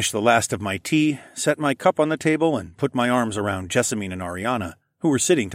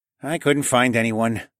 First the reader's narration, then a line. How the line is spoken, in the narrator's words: the mustache man sighed